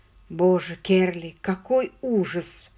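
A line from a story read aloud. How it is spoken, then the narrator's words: Strained, forced out. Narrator (Russian): наконец выдавил он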